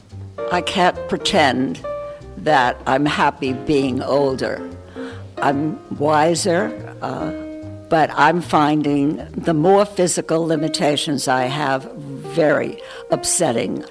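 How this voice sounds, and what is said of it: New York accent. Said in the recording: “You can tell by my accent that I'm from New York.”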